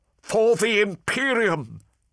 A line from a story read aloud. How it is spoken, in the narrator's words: shouted Semper as he charged